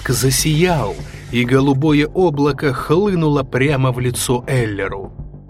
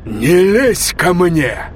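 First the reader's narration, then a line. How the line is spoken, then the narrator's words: Growl. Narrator (Russian): прорычал Блейк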